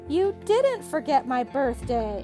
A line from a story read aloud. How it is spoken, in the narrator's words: exclaimed Rod